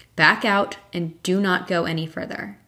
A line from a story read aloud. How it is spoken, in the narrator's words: It spoke clearly and firmly